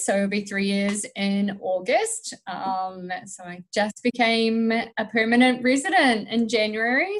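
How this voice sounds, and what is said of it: New Zealand accent. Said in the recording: “if you can't work out by my accent, that I'm not Canadian... I'm from New Zealand”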